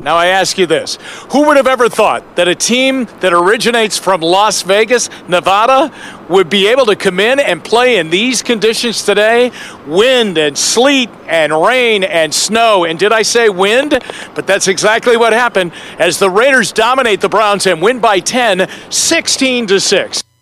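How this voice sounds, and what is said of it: Jim Donovan radio announcer voice. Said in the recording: “Jim Donovan, the radio voice of the Cleveland Browns”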